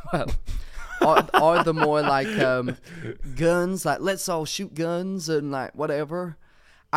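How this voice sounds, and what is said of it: Imitation of a South Carolina gun-lover. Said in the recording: “I think that wasn't the best impression ... people in South Carolina, forgive me if I'm wrong, guns”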